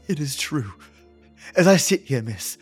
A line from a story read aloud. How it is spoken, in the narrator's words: Mary panted